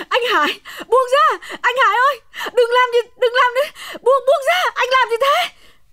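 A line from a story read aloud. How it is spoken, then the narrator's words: Screaming. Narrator (Vietnamese): Hồng gào thét lên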